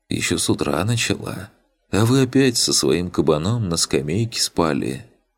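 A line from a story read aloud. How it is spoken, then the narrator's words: Heavy sigh, matter-of-fact. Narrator (Russian): тяжело вздохнув, констатировал он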